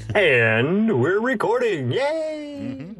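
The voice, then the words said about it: Sudden polished radio announcer voice. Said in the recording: “that voice switched all of a sudden to radio voice ... your advertiser voice. That's very distinctive from your regular”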